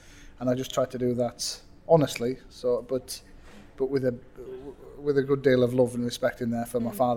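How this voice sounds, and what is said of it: Northern English accent. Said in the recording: “That's what we call it where I come from. Instead of book, it's book. ... my northern accent coming out”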